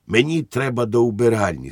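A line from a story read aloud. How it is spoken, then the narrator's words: Plain. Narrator (Ukrainian): сказав він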